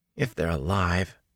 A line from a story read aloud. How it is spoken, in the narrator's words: Matt muttered at his plate